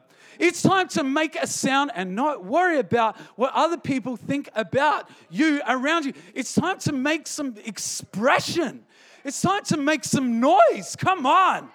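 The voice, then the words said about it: Voice cracking and breaking. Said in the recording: “my voice is still breaking”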